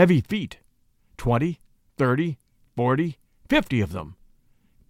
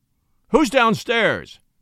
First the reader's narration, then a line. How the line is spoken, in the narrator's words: roared Henry